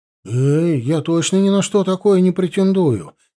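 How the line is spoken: Frightened. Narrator (Russian): испуганно Леха

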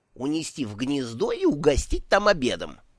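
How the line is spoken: Snapping retort. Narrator (Russian): огрызнулась черепашка

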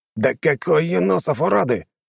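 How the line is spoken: Roaring. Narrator (Russian): взревели герцог

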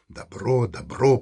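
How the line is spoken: Grumbling. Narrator (Russian): проворчал Антон

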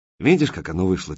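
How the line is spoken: Said quietly. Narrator (Russian): тихо сказал Коренев

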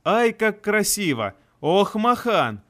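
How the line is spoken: Laughing continuously. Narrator (Russian): Анастария, не переставая смеяться

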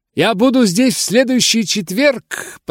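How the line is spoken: Shouting. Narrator (Russian): прокричала она

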